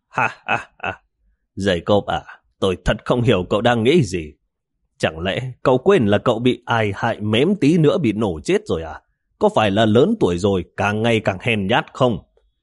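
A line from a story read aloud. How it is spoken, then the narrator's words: Sudden loud laughter. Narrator (Vietnamese): Tịch Vĩ đột nhiên cười lớn nói với Jacob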